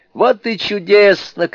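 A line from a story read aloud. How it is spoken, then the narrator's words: Group shouting. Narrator (Russian): кричали они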